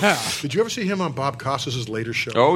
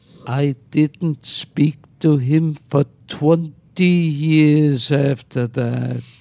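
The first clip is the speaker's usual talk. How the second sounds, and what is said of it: Rod Steiger impression. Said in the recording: “Steiger looks at me in that intense way, where his eyes open up, and he goes ... I love your impression.”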